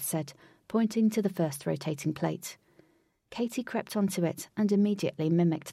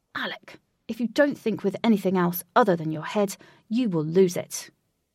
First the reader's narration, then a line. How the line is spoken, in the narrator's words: Wraith crossly replied